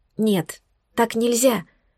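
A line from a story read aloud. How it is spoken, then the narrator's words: Sad exhaled words. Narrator (Russian): выдохнула с грустью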